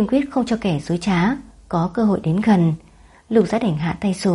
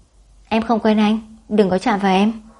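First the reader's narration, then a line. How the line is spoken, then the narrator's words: Cold indifferent. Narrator (Vietnamese): Nam Vận lạnh lùng hờ hững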